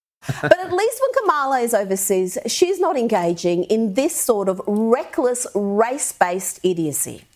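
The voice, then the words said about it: Australian accent. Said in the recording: “Australian accent? ... it sounded like rice, race, rice”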